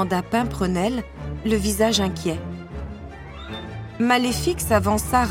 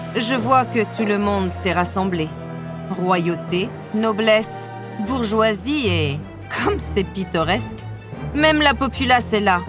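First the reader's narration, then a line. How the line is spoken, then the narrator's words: Cooing, sneering. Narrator (French): roucoula-t-elle, ricanant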